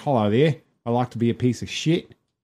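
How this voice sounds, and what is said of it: Imitated Australian accent. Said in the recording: “The worst thing about Australia is that people immediately try to do the accent.”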